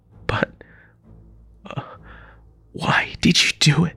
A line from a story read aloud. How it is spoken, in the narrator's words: He groaned